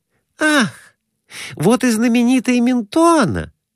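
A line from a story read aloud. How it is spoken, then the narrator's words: Exclaimed. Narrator (Russian): воскликнула Глафира Семеновна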